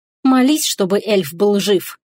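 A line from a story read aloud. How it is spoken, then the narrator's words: Hissing. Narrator (Russian): зашипела Теруми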